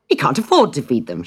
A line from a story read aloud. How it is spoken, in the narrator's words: she said sharply